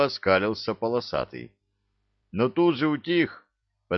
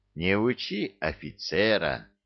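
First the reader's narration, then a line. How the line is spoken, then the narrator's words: Almost gentle remark. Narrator (Russian): почти ласково заметил Юрий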